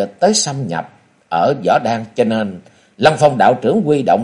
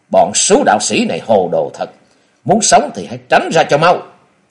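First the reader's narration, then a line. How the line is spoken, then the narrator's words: Indignant loud shout. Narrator (Vietnamese): Kế Quan lúc này vô cùng phẫn uất, miệng quát to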